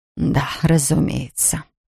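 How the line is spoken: Whisper. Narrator (Russian): прошептала Ферн

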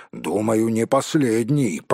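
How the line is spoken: Grumbling mutter. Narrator (Russian): пробурчал Том

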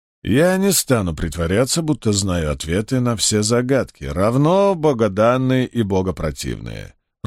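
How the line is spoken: Even voice. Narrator (Russian): ровным голосом произнес судья

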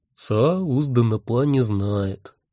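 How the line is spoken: Sad. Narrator (Russian): печально сказал наш пленник

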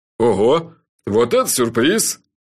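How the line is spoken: Short laugh. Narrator (Russian): Джуфин коротко хохотнул

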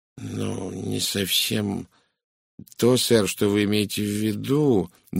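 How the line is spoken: Uncertain. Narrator (Russian): неуверенно произнесла Глэдис

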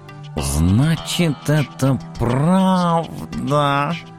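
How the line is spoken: Melted purr. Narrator (Russian): Совсем растаяв, промурлыкал профессор

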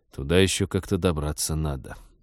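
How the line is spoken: Sigh. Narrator (Russian): вздохнул Станислав

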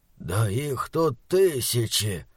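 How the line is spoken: Muffled mutter through handkerchief. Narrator (Russian): пробормотал Морган сквозь спасительный носовой платок

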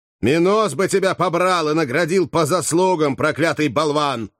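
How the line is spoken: Shout. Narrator (Russian): крикнул Кателина

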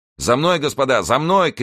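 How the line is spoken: Shout. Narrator (Russian): крикнул он

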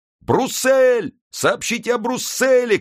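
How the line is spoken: Crowd shouting. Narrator (Russian): кричала толпа

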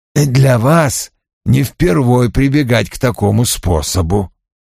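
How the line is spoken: Gentle. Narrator (Russian): мягко заметил Вульф

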